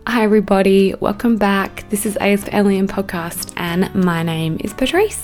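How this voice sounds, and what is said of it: Husky, hoarse voice. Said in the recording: “I have COVID right now. So that's the reason why my voice is probably, you know, a little more huskier, a bit sexier than normal”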